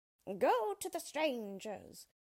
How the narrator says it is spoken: cried the witch

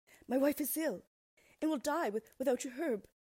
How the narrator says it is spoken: pleaded the man

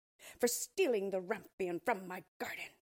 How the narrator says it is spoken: she cried

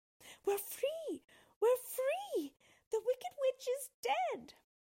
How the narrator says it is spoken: she cried

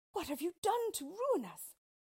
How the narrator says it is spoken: cried Ali Baba and their heir

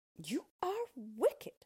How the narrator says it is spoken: cried Dorothy

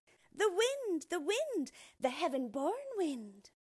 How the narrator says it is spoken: the children called back gaily, with their mouths crammed full

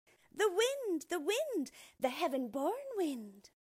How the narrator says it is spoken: the children called back gaily, with their mouths crammed full

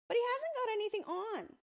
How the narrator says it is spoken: exclaimed a little child

